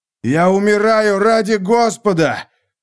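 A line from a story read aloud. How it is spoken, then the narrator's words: Shouting. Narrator (Russian): закричал я в пустое гигабитное пространство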